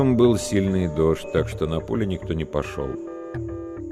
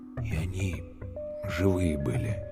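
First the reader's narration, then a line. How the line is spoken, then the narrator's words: Quiet. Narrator (Russian): тихо сказал Калюня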